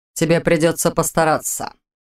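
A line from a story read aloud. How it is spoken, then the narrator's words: Cold reply. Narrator (Russian): холодно ответил Рид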